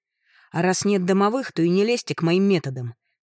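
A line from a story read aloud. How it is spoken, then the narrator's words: Barking snap. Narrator (Russian): рявкнула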